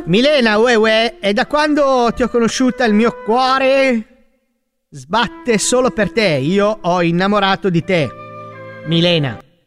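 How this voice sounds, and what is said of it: Put-on Neapolitan accent. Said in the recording (Italian): “È il napoletano.”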